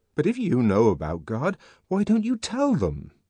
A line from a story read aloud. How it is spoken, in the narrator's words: asked the savage indignantly